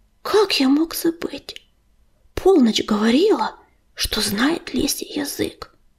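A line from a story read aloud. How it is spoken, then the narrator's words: Whispered. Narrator (Russian): прошептал ураган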